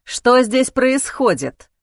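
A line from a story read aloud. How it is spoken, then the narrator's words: Stern man's voice. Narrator (Russian): строгим голосом спросил мужчина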